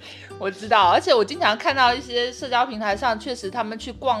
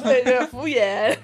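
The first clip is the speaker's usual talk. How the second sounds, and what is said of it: Says 'waiter' with a put-on accent. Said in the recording (Chinese): “还要带点口音的那种”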